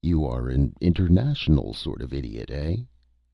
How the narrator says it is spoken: queried the lawyer, with a chuckle at his own wit

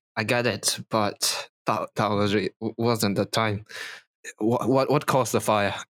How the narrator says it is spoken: He's going to sigh and say

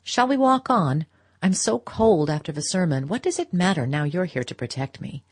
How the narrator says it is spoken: rejoined in a lighter tone

